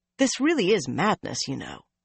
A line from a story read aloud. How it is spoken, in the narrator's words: he said quietly